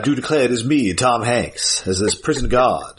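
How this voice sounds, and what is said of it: Put-on Southern US accent. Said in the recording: “everybody's got a bit of a southern accent here”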